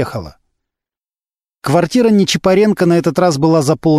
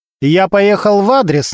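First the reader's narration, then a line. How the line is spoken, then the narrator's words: Commanding tone. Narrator (Russian): начальственным тоном сказал он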